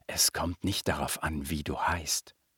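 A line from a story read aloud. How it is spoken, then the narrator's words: Whispering to a baby. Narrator (German): flüsterte dem Baby zu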